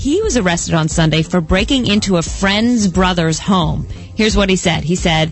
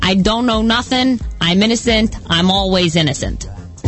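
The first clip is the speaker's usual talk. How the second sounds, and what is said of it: Put-on Italian-American tough-guy accent. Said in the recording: “nice accent, marinara.”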